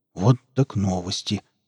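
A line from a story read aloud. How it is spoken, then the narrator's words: Muttered. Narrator (Russian): пробормотал Велес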